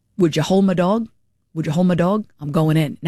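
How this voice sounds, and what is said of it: Deliberately bad put-on accent. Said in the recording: “in some stupid accent that I'm terrible at”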